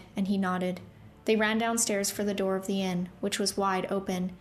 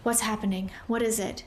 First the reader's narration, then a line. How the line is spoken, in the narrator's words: she demanded breathlessly